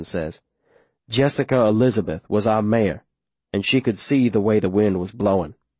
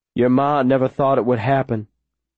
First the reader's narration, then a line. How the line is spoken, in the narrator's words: Ben says, smiling sadly to himself at some memory